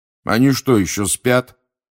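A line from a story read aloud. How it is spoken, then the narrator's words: Grumbling. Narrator (Russian): проворчал Фред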